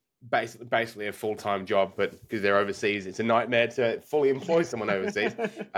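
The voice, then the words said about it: Australian accent. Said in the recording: “we're in Australia. Obviously anyone listening, you can tell by our accents”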